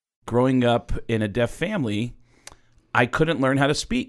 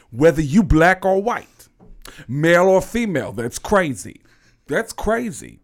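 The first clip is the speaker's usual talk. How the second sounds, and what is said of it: Tracy Morgan impression, Bronx voice. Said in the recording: “everybody in the Bronx sounds like Tracy Morgan”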